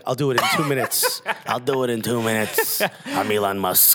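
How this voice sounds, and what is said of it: Imitates another person's voice. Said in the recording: “I don't know why that's his accent.”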